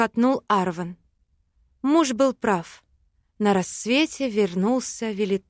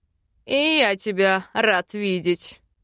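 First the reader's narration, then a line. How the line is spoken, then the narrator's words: Snort. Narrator (Russian): фыркнул Бальтазар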